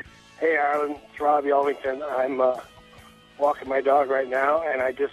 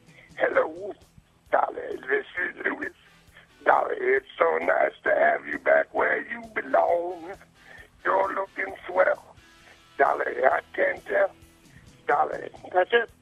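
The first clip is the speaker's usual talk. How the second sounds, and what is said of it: Imitates another person's voice. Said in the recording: “my impression of Louis Armstrong ... Thank you, Grover from Sesame Street. It was kind of there.”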